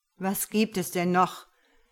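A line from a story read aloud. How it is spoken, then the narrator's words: Blustering outburst. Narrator (German): poltert Josef los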